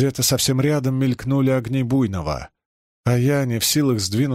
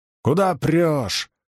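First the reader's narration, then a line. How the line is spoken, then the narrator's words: Furious yelling. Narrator (Russian): бешено заорал Чернышов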